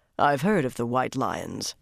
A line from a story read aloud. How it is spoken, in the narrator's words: Rand said coldly